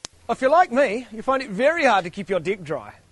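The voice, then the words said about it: Exaggerated New Zealand accent. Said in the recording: “This is New Zealand accent for you”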